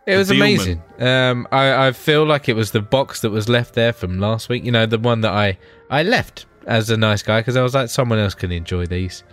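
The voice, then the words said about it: Congested voice from a cold. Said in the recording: “I've got a bit of a cold, so I probably sound like more of a dickhead right now”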